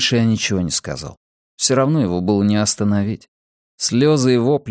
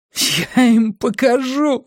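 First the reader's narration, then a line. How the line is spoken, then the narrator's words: Yelling through tears. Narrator (Russian): орал он сквозь слезы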